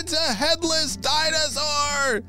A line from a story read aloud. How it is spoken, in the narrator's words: shouted Eleonora